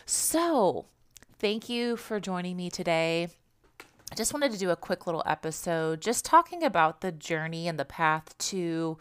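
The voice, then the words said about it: Stuffed-up, hoarse, congested voice. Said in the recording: “Sorry if I sound a little bit stuffed up or hoarse, having a little bit of drainage from allergies ... my voice sounds a little different, a little congested.”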